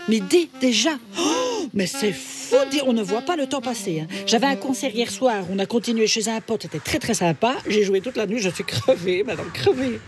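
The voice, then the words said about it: Odd Belgian French accent. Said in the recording (French): “pourquoi tu parles avec cet accent bizarre? ... Gudule de Belgique. Ben voilà, c'est peut-être pour ça que j'ai un accent”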